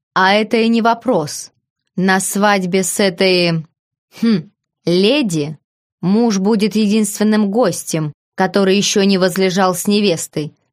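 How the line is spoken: Laughing. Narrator (Russian): рассмеялся я

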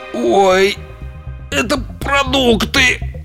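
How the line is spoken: Groan. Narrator (Russian): простонал он

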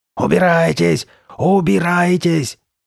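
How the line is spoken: Shouting. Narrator (Russian): закричала Карли Бет

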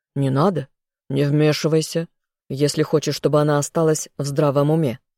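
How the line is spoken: Barked. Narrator (Russian): рявкнул гость

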